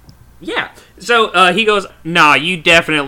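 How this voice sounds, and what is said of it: Usual voice. Nothing is said of it.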